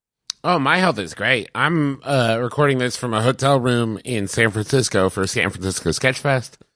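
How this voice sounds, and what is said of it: Slightly rough, hoarse voice. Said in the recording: “My voice is a little rough, but not from sickness, just from laughing and screaming in joy.”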